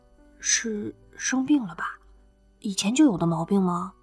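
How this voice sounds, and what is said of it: Soft, gentle, quiet voice. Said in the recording (Chinese): “小声问着 ... 尽量让自己口气温和 ... 女孩子的嗓音嘛 ... 绵软温柔的”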